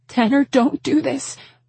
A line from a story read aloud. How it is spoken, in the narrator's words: I begged him